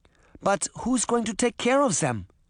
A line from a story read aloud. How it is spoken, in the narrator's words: Granny Relda asked anxiously